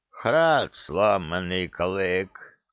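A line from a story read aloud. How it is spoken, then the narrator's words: Solemn proclamation. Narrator (Russian): торжественно провозгласил хранитель очага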